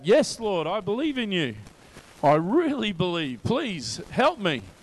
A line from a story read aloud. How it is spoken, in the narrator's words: The man shouts back